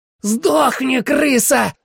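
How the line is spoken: Frenzied spitting yell. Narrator (Russian): орал Грант, плюясь мне в лицо

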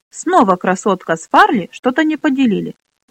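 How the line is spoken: Exclamation. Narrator (Russian): воскликнула Минолли

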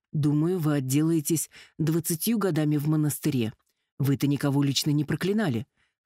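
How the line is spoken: Snort. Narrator (Russian): хмыкнул Керт

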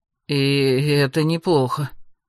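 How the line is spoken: Mutter. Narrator (Russian): пробормотал Эрик

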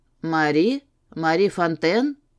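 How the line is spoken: Low chesty voice. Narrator (Russian): девчонка ответила ему низким грудным голосом

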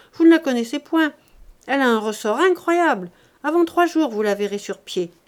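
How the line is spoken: Exclaiming. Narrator (French): s'écria Chantot

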